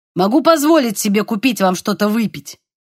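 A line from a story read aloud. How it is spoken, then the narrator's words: Sharp tone. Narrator (Russian): резким тоном сказал он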